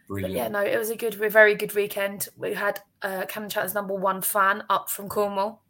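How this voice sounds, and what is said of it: Hoarse, lost voice. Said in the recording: “As you can hear, I couldn't have lost my voice.”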